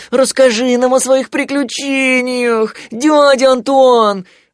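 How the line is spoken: Pleading. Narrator (Russian): взмолился Тулуз

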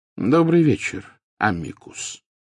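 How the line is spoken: Calm, casual welcome. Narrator (Russian): спокойно произнес Дамблдор, словно приветствуя гостя, явившегося на чашку чая

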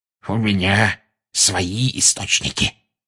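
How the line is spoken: Smug hiss. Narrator (Russian): самодовольно прошипел Филч

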